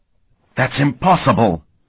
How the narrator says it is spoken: gasped

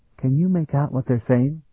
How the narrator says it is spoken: Talon whispered

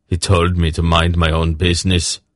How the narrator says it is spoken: Anhag grunted

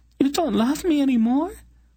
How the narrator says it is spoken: quaveringly

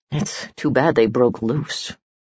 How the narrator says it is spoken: muttered a Halveric private

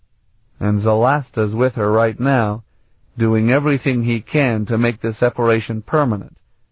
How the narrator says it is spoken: Sparhawk added, his voice bleak

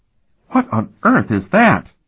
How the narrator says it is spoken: She exclaimed

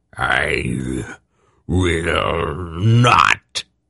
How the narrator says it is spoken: Murja spat out the words

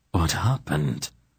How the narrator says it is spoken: Silk demanded in a shaking voice

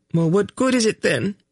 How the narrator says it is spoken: she demanded bitterly

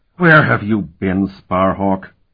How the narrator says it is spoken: Keurig demanded angrily

